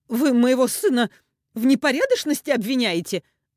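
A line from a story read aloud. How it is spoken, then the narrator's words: Shrieking. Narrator (Russian): взвизгнула Ирина Леонидовна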